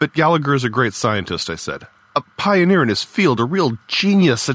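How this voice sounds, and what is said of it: Usual voice. Nothing is said of it.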